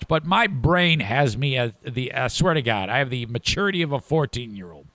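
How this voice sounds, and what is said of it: Gravelly voice. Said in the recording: “my grovelly, stupid voice”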